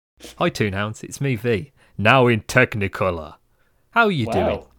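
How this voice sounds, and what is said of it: Cartoon character voice. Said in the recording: “did the voice”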